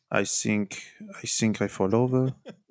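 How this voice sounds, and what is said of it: Jose Mourinho accent impression. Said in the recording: “How did Jose Mourinho go with his accent?”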